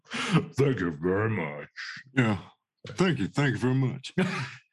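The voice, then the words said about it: Elvis impression. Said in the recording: “That's a fucking good Elvis, actually”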